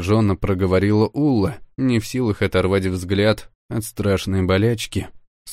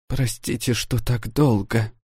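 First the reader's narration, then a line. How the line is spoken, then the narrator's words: Woman whispering. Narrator (Russian): прошептала она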